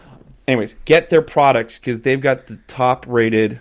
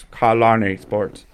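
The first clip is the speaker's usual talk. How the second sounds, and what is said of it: Robotic voice. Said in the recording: “I want to hear a robot voice.”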